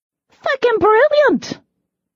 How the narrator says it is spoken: Danny exclaimed

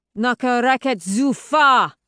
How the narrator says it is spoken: He bellows

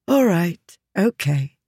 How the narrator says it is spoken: she said with a sigh

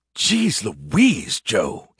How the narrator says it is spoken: he hissed

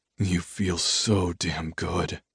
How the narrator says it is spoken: groaned

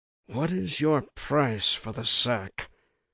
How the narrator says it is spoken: asked, in a whisper

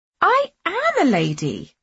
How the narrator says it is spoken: I exclaimed

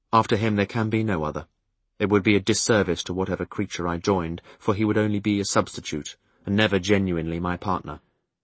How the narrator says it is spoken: said quietly

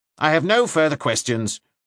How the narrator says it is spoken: said Broom curtly

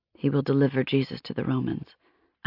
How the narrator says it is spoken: I whispered

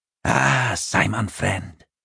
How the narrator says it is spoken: the troll sighed

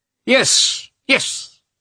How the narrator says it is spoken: he cried in a shrill voice

